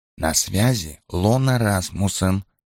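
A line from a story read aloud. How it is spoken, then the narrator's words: Whisper. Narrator (Russian): прошептала она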